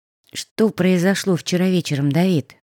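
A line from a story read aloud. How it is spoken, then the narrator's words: Soft question, woman. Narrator (Russian): мягко спросила она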